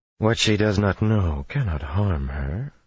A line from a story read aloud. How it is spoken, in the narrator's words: she murmured